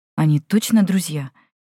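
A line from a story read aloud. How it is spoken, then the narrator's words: Young woman, slightly frightened question. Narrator (Russian): немного испуганно спросила девушка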